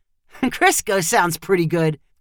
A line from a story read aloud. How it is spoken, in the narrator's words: Kyle said with a chuckle